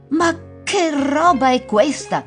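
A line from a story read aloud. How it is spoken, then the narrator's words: Astonished exclamation. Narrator (Italian): esclamò la madre stupefatta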